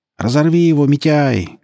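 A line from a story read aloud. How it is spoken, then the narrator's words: Crowd shouting. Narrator (Russian): кричали скины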